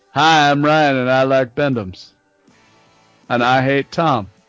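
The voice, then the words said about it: Imitates another person's voice. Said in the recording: “my Ryan impression? ... That's pretty close, right? ... Yeah, not bad.”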